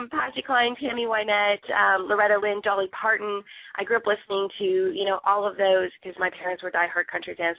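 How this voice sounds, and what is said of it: Strained, failing voice. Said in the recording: “Sorry, I'm losing my voice.”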